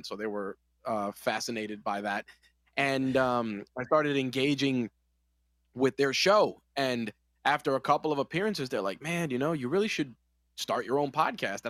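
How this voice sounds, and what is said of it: New York accent. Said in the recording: “being from New York, you know, you have the New York accent”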